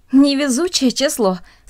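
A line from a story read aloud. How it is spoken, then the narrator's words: Said, then laughing. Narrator (Russian): сказала одна из них и засмеялась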